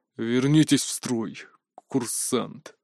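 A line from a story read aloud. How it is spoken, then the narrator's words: Frustrated, through gritted teeth. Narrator (Russian): процедил, будучи не в силах меня заставить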